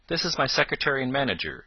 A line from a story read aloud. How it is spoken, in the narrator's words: said the colonel